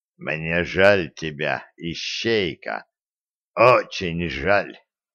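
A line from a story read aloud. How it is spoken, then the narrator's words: Slow hoarse, king. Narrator (Russian): Король медленно и хрипло произнес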